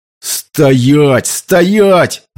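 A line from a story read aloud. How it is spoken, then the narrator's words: Yelling. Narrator (Russian): заорал Энди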